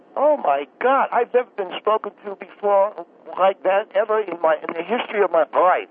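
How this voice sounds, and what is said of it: Pennsylvania-New Jersey accent, swallowed L's. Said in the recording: “you have a bit of that Pennsylvania, New Jersey accent. You swallow your L a little bit ... All of us from that region of the country swallow our L's”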